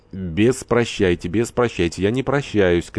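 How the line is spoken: Shouted in French. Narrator (Russian): крикнул по-французски Горданов

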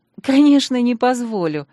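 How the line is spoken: Involuntary relieved laugh. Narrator (Russian): невольно засмеялась, чувствуя, как тает ноющая в сердце заноза

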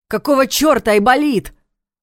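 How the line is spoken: Yelled. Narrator (Russian): Вместо Войтыха заорал Ваня

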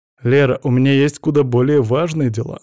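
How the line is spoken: Mocking reminder. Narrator (Russian): насмешливо напомнил я

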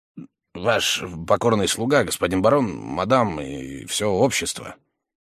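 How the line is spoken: Mutter. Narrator (Russian): он пробормотал

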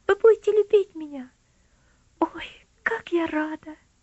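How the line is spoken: Joyful girl's exclamation. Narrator (Russian): радостно воскликнула девочка

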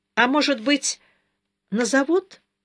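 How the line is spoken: Timid young woman's question. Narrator (Russian): робко спросила молодая учительница

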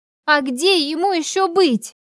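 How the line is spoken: Almost shouting. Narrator (Russian): Она почти кричала

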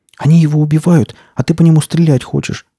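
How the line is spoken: Exclaiming. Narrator (Russian): воскликнула Настя

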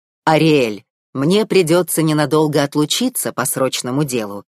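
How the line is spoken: Plain. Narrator (Russian): сказал царь

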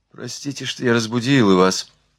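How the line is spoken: Mumbling. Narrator (Russian): пробормотала Марианна

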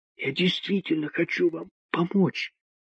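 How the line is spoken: Woman whispering. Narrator (Russian): вновь прошептала женщина

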